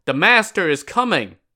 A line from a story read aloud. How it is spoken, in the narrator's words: someone yelled